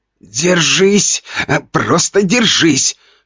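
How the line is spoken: Hoarse, strained self-talk. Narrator (Russian): хрипел я сам себе, чувствуя, как немеют руки

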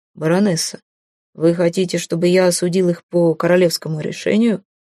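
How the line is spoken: Calm question. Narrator (Russian): спокойно спросил он

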